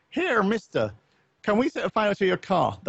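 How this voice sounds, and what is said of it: Put-on Irish accent. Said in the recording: “That was my Irish accent”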